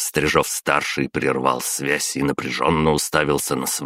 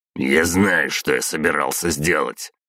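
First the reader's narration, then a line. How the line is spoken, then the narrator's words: Through gritted teeth. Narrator (Russian): сквозь зубы процедил Стрижов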